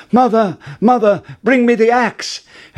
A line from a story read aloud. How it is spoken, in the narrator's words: called out